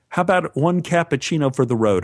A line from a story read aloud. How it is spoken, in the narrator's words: said